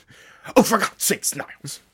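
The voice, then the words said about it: Imitates a sitcom character's voice. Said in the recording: “my Frasier Crane impression”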